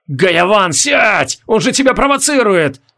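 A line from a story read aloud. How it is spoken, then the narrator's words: Wild scream. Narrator (Russian): Дико закричал из Кашмир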